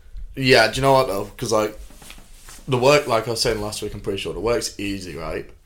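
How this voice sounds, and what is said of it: Thick accent. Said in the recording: “I don't understand your tick accent.”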